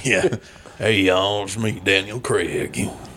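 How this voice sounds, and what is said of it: Put-on Southern American accent. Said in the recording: “his Southern accent”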